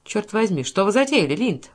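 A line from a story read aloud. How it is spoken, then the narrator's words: Exclamation. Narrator (Russian): воскликнул Тейлор Лорд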